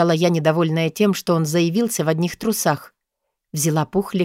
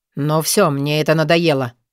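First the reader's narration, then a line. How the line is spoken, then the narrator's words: Sullen grumble. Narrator (Russian): хмуро проворчал Нурлан, с явным беспокойством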